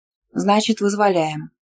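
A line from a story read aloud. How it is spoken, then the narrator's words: Calm. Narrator (Russian): спокойно сказал Славик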